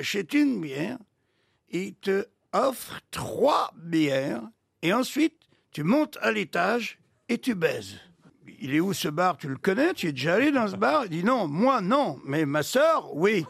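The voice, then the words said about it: Belgian accent. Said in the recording (French): “L'excellent accent belge”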